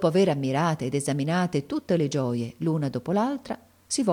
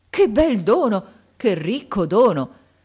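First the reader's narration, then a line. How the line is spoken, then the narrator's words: Joyful exclamation. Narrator (Italian): Rimesso dallo stupore, ricevette il dono dalle mani della madre di Aladino, esclamando con un trasporto di gioia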